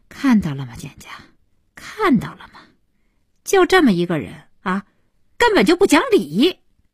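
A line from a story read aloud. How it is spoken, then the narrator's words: Wry bitter laugh. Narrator (Chinese): 小西对简家苦笑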